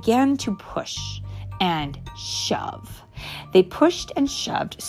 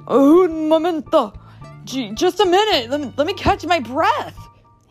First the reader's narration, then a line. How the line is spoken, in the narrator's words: cried